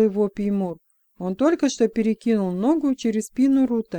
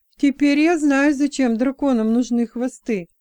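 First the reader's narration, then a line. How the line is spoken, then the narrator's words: Nervous giggle. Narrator (Russian): нервно хихикнув, сказал Джексон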